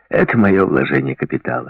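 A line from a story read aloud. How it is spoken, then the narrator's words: Joking tone. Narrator (Russian): шутливым тоном сказал он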